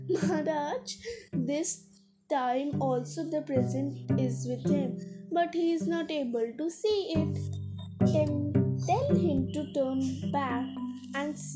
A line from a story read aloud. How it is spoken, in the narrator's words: At this, Tenali laughed and said